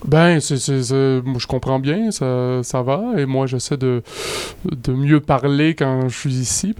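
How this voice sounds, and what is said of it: Quebec French accent. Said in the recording (French): “t'en joues pas mal de ton accent”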